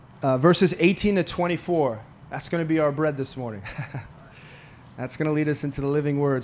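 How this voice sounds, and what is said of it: Slightly hoarse, fading voice. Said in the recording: “I'm losing my voice a little bit”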